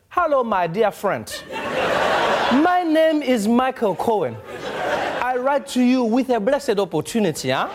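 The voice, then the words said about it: Put-on African accent. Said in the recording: “pitched them in an African accent”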